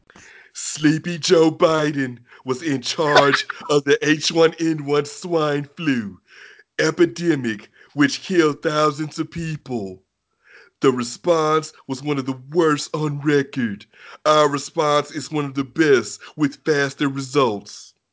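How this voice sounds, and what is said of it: Donald Trump impression. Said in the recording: “read in my Trump voice”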